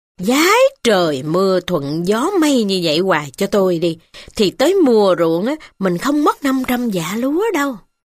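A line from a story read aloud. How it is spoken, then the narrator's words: Cheerful, repeating. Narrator (Vietnamese): Cai Tuần Bưởi hớn hở trong lòng, cứ nói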